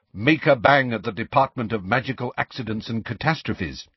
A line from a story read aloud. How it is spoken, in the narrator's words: said Hermione sharply